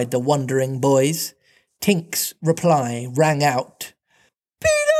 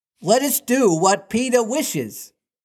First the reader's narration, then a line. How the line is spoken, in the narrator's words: cried the simple boys